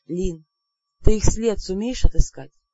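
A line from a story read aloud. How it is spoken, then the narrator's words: Quiet. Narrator (Russian): тихо сказала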